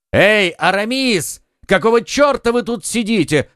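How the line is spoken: Two voices shouting. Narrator (Russian): крикнули оба друга

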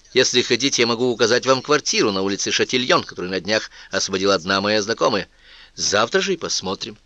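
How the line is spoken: Plain. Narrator (Russian): сказала Анетта

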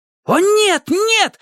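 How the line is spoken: Wailing yell. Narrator (Russian): завопил Спидо

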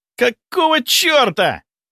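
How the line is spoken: Breathless, suppressed anger. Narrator (Russian): выдохнул он, еле сдерживаясь, чтобы не закричать

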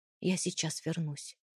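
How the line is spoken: Quiet. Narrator (Russian): тихо сказал

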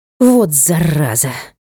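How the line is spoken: Exhaled. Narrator (Russian): Выдохнула я

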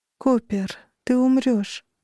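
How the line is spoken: As soft as possible. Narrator (Russian): сказала настолько мягко, насколько могла

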